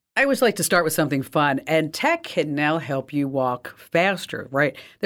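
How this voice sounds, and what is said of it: Slightly raspy voice. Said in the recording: “my voice is a little raspy ... I just got a little bit of a cold”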